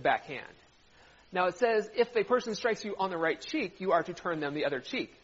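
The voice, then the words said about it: British accent. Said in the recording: “It's my British accent”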